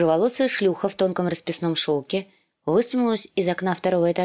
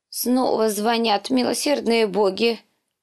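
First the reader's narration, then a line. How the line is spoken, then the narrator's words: Old woman's groan. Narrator (Russian): простонала старуха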